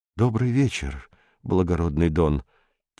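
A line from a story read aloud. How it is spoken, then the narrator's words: Quiet. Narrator (Russian): тихо сказал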